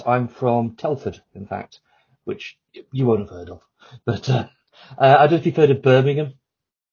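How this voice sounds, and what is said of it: British English accent. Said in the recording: “So you're from UK? ... Correct, yes. Hence this outrageous accent I have.”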